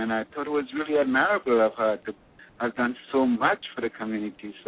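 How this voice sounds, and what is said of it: Trinidadian accent. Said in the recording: “It sounds like you have an accent ... I'm originally from Trinidad and Tobago”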